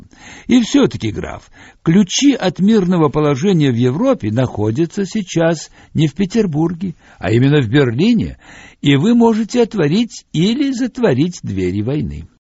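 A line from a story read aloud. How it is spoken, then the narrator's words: Almost cheerful. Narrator (Russian): Сергей Дмитриевич Сазонов почти весело сказал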